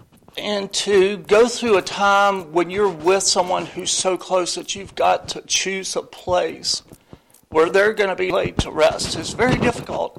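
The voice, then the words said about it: Emotional, stumbling voice. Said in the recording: “I'm still, my voice is stumbling over the experience”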